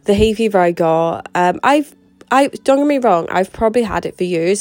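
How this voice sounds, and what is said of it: Congested, nasal voice. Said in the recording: “you can probably hear it in my voice, but I do have hay fever ... I'm completely to check congested. My sinuses were terrible”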